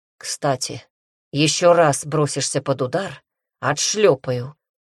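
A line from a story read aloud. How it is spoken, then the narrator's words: Growl. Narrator (Russian): прорычал гибрид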